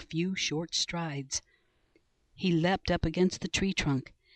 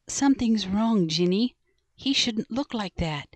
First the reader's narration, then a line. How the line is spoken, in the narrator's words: said Annie